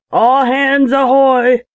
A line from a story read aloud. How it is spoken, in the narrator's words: roared Bill Blunt in a voice of thunder